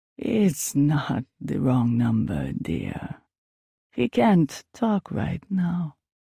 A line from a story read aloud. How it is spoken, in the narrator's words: she drawled on, her voice sounding rather wicked